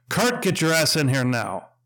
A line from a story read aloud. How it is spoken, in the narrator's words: I yelled, mustering all my years as sergeant into my voice